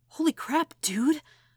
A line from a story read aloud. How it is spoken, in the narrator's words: Peter greeted, voice coming out a little wheezy